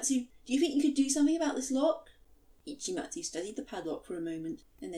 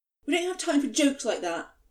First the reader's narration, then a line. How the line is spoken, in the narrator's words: Choromatsu snapped